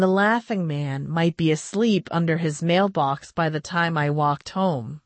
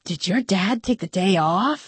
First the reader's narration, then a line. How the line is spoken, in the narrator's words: I whispered